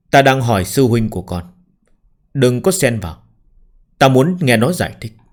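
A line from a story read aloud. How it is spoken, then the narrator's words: Cold, steady. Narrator (Vietnamese): La Thu lạnh lùng, ngữ khí không chút rung động, vô cùng ổn định nói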